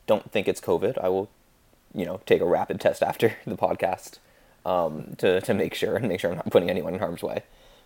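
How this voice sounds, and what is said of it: Hoarse, deeper sore-throat voice. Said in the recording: “as you, listeners can probably tell from my voice, I have a bit of a sore throat... my voice sounds like closer to John Wayne than my usual voice”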